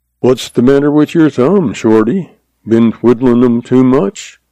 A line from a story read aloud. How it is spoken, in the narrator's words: he asked dryly, his eyes twinkling